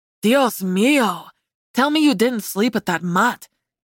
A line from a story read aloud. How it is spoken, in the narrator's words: Diego gasped